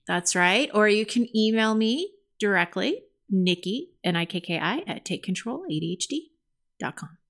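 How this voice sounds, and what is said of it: Close-miked radio announcer voice. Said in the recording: “I sounded like you... I had like a radio voice... You got nice and close to the mic, like you're in my brain.”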